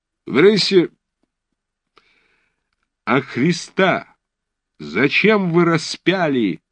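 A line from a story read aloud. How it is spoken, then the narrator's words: Shouting. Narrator (Russian): крикнул подпрапорщик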